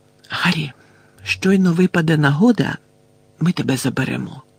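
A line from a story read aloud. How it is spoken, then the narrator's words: Whisper. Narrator (Ukrainian): прошепотіла місіс Візлі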